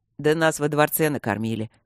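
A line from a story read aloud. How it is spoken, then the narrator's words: Short laugh. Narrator (Russian): хохотнул Четыре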